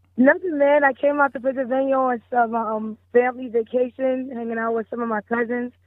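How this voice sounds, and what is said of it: Partly lost, hoarse voice. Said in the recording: “I lost my voice a little bit, so I hope you can hear me good.”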